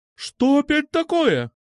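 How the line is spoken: Shout. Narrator (Russian): крикнула

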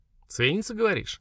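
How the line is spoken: Thoughtful. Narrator (Russian): задумчиво сказала Лера

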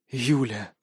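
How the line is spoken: Hoarse rasp. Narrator (Russian): прохрипел Костя

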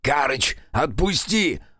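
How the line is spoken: Sputtering shout. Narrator (Russian): Отфыркиваясь от песка во рту, выкрикнул он

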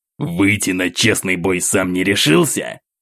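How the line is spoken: Spat angrily. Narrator (Russian): злобно сплюнул майор

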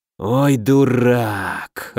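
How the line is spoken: Disappointed drawl. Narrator (Russian): разочарованно протянул Денебери

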